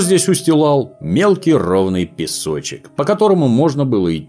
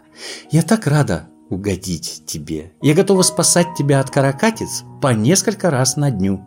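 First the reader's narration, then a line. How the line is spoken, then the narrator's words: Whispered. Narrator (Russian): Фрекен Снорк зарделась от удовольствия, потупила глазки и прошептала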